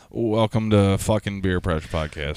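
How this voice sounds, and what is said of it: Flat, depressed-sounding delivery. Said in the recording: “Did I sound pretty depressed?”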